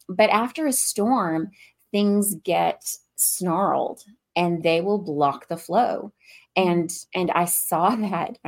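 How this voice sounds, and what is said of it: Slight Southern US accent. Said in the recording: “I live in the South ... with my little bit of an accent”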